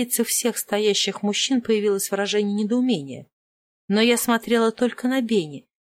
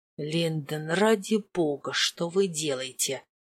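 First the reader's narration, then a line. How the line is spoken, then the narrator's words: Hissed into ear. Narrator (Russian): зашипел мне в ухо герцог Веллингтон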